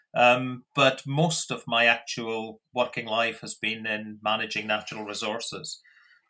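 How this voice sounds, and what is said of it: Scottish accent. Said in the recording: “as the accent might give it away, I'm not particularly from Australia ... originally from Scotland”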